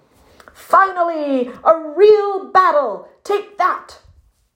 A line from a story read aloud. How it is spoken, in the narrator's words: the puffin boldly shouted